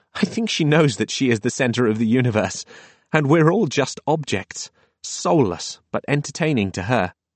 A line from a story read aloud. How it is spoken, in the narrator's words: the girl laughed, saying